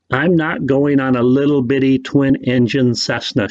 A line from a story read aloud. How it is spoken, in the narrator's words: she said